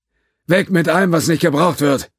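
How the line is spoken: Shouting over noise. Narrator (German): rief Judge ihnen durch den Lärm zu

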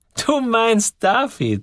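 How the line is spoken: Said laughing. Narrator (German): sagte sie lachend

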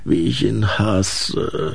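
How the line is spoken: Sleepy grumbling orchid. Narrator (German): brummte die Orchidee schlaftrunken

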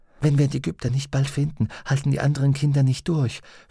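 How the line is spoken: Whispered. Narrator (German): flüsterte sie Pantalaimon zu

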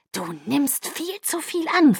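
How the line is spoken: Hissing. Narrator (German): fauchte

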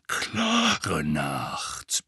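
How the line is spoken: Grumbling. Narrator (German): brummte Moody

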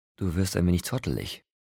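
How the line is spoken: Plain. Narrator (German): sagte sie

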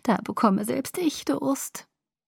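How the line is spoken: Giggling. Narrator (German): Aro kicherte

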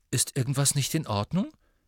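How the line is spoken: Worried voice. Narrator (German): sagte Hermine mit besorgter Stimme

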